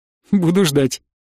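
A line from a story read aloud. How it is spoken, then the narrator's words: Laughing. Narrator (Russian): снова засмеялась она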